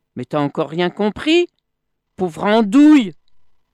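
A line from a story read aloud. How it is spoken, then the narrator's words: Monkey yelling. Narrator (French): hurla le singe, revenant un peu plus bas pour ne pas avoir à s'égosiller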